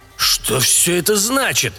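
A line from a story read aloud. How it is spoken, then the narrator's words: Indignant shouting. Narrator (Russian): возмущенно выкрикивал Дукакис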